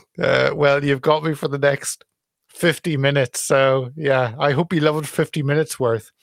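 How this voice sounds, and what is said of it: Speaks with an English accent. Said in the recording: “I love your accent ... Some Englishness.”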